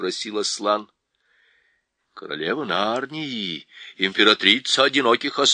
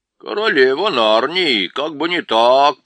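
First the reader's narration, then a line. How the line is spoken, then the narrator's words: Grumbling. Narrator (Russian): проворчал мистер Бобр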